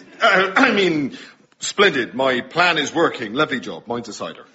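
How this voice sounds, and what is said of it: Put-on West Country English accent. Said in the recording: “You have lost your West Country accent.”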